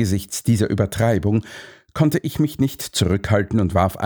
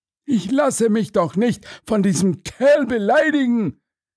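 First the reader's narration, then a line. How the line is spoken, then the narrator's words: Indignant shout. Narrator (German): rief Launay empört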